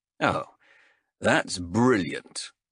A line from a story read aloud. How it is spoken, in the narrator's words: sighed Callis